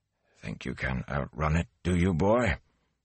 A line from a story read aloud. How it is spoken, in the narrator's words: He began to mutter to himself